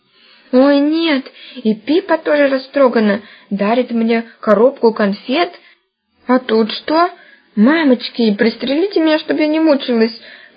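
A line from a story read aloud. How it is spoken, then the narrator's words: Moaned. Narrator (Russian): простонала Таня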